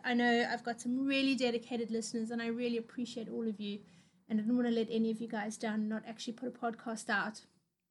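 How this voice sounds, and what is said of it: Rough voice with a cold. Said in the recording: “I am a little bit unwell ... I've got a bit of a cold ... a sort of runny nose ... please excuse my really, really rough voice this week”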